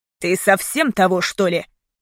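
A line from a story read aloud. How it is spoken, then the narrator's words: Furious growl. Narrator (Russian): яростно зарычал он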